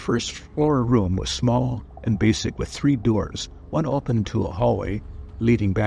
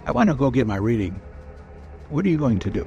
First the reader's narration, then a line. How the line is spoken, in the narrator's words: She quickly added